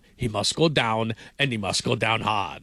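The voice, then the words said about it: Imitates a movie villain's voice. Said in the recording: “that was a terrible impression... No, it was great... like Drago”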